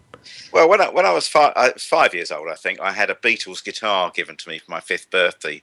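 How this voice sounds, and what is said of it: Estuary English accent. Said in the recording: “a bit of an East London accent ... I've frequently been confused with having an estuary accent”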